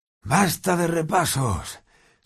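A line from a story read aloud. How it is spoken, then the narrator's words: Relieved sigh. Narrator (Spanish): suspiró aliviado Ron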